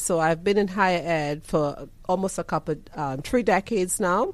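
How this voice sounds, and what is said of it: Trinidadian accent. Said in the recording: “you hear the accent... beautiful ... accent... I'm from Trinidad and Tobago”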